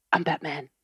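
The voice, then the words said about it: Gravelly Batman voice. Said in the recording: “do your Batman voice”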